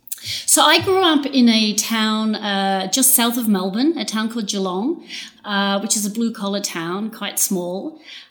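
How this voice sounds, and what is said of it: Australian accent. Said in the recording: “You're from Australia, I can take from the accent.”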